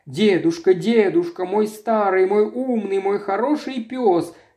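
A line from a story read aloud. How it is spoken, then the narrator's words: Tearful. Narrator (Russian): говорила сквозь слезы Мэри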